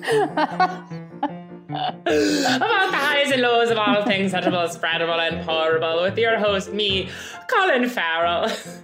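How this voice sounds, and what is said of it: Put-on Irish accent. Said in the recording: “It's okay if you do the Irish accent”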